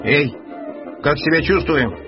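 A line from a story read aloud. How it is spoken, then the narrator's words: Shouting. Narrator (Russian): крикнул первый марсианин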